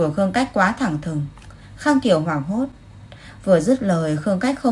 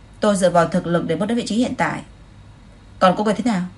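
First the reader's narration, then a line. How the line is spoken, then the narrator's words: Cold interruption. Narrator (Vietnamese): Khương Cách lạnh lùng ngắt lời cô ta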